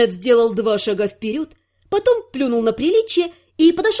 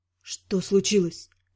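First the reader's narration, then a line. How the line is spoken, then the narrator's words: Hoarse question. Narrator (Russian): хрипло спросил он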